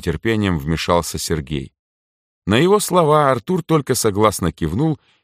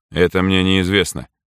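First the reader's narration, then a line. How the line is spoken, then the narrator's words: Dry, curt. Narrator (Russian): сухо произнес Артур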